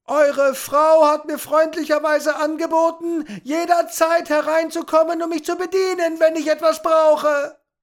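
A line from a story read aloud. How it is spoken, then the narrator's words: Impatient bellowing. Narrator (German): hatte nicht vor, das alles ein drittes Mal zu wiederholen, also brüllte er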